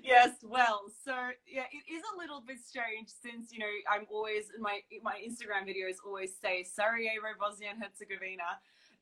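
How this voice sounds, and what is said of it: Australian accent. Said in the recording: “your Australian accent ... in an Aussie accent”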